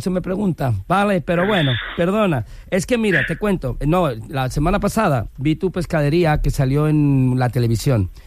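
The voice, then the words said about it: Put-on Galician Spanish accent. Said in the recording (Spanish): “pon acento galego ... ya se me siente el acento gallego”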